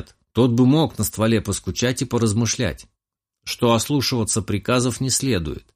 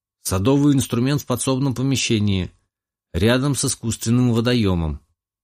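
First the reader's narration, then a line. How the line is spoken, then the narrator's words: Gloomy. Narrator (Russian): мрачно поведал мой питомец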